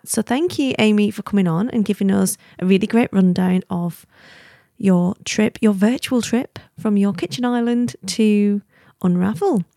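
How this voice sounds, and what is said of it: Northwestern English accent. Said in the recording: “my lovely northwestern English accent”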